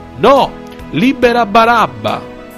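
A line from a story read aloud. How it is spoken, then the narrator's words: Crowd shouting. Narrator (Italian): gridavano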